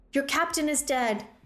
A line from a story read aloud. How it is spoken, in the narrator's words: Thea shouted into the fog